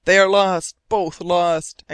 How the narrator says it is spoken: exclaimed the captain

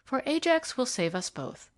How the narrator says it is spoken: she continued brightly

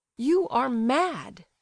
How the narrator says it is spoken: he cried, indignantly

